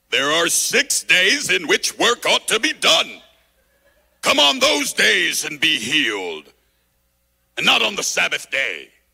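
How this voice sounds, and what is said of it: Put-on Pharisee character voice. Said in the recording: “I'm going to do my Pharisee voice.”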